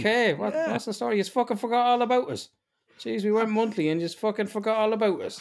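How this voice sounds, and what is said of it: Irish accent. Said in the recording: “How can it be more Irish in my Irish accent? Like, I need to fucking paddy whack it up a little bit.”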